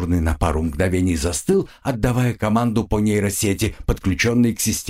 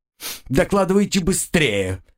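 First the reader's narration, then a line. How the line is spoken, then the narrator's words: Irritated order. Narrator (Russian): раздраженно приказал капитан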